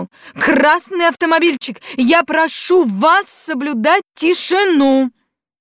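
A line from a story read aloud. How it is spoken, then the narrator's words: Stern shout. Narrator (Russian): милиционер строго крикнул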